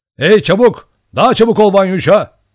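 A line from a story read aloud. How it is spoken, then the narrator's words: Shouted. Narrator (Turkish): diye bağırdı Olin'in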